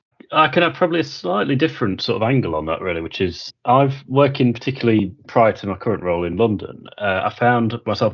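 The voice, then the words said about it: English Midlands accent. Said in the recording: “in my case, very much a Midlands accent”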